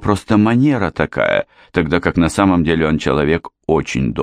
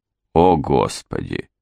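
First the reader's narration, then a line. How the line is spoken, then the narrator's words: Irritated, through gritted teeth. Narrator (Russian): раздраженно процедил Стил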